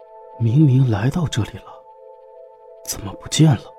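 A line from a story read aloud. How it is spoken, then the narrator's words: Low murmur. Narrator (Chinese): 一个身穿深蓝色军服的男子，低声喃语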